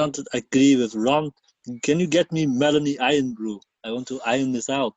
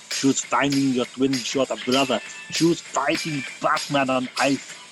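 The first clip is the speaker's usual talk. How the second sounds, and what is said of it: Scottish accent. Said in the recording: “You want me to do it in a Scottish accent?”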